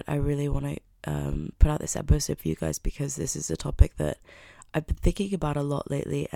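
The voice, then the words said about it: Worn, off-sounding voice. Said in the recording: “I also want to apologize for my voice. Unfortunately, I had a little bit of a crazy night, so I'm feeling it a bit physically”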